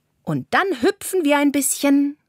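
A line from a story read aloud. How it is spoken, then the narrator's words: Called out. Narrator (German): ruft Carla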